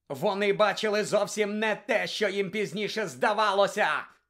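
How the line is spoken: Wild yell. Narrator (Ukrainian): заволав диким голосом Блек

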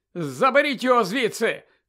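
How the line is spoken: Shout. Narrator (Ukrainian): крикнув Колінс

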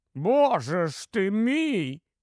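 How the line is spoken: Exclamation. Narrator (Ukrainian): вигукнув

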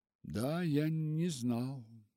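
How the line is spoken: Quiet. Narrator (Russian): тихо сказал он

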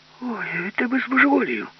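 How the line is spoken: Plain. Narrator (Ukrainian): сказав Фіма Корольов

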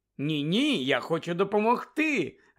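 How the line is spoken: Joyful exclamation. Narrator (Ukrainian): Радісно вигукнула Тонкс

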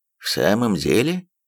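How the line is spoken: Calm. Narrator (Russian): спокойно отозвался Холмс

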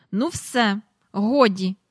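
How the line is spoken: Angry. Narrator (Ukrainian): сказала Мері Поппінс, сердито поглянувши на Джейн

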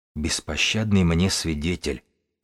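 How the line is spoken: Drowsy scholar's whisper. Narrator (Russian): прошептал книжник, проваливаясь в сон

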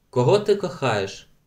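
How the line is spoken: Plain question. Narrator (Ukrainian): запитала вона

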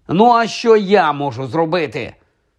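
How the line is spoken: Plain. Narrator (Ukrainian): сказав Вуд

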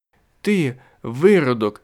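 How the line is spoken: Shriek. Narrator (Ukrainian): скрикнула

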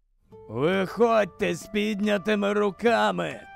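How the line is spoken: Hoarse voice. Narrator (Ukrainian): Пролунав хриплий голос

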